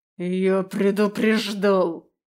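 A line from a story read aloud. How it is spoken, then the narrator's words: Growled. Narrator (Russian): Немиров рыкнул на меня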